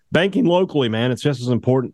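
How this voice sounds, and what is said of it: Voice cracks mid-sentence. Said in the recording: “Did my voice just crack? I think it did. ... Yes, it did. You going through puberty?”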